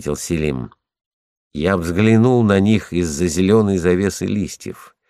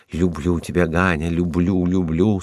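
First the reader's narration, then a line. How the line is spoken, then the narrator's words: Passionate whisper. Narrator (Russian): страстно шептал он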